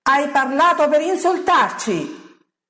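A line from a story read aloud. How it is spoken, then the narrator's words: Hostile crowd shouting. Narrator (Italian): gridano i giudei nemici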